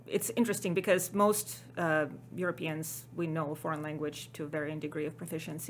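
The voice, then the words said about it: Ukrainian accent. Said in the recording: “as everybody can probably tell from my accent, not a native Texan or American. I was born in Ukraine”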